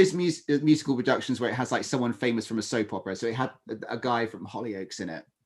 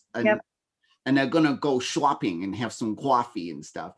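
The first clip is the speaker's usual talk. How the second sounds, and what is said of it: Put-on New York accent. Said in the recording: “everyone has a New York accent for starters, no matter where they are in America, everyone talks like this”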